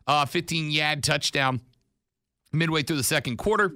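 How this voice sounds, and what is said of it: Put-on Boston accent. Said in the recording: “I'm practicing my Boston accent for next week.”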